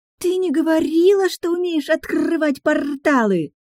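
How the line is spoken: Granddaughter's delighted exclamation. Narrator (Russian): восторженно воскликнула внучка

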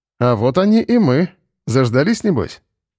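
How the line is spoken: Cheerful grinning. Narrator (Russian): весело осклабился майор

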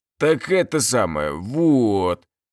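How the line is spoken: Nervous drawl. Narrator (Russian): протянул мужик, обильно потея

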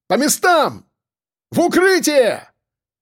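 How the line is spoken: Shout. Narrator (Russian): крикнул кто-то из сербов

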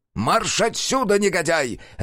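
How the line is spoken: Barked. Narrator (Russian): рявкнул Хальбер Крум

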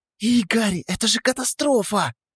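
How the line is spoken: Nervous hissing. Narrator (Russian): зашипела она, нервно

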